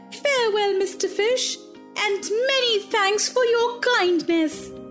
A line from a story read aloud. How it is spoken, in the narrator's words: cried Pinocchio, frightened to death, said